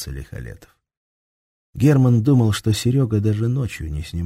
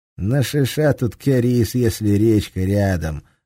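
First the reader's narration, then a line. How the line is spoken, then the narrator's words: Plain. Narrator (Russian): ответил Серега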